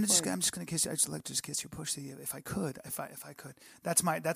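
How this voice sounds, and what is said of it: Usual voice. Nothing is said of it.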